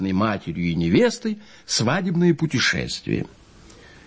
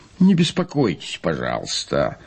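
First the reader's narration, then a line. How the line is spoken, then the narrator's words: Grumble. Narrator (Russian): проворчал и господин Вольный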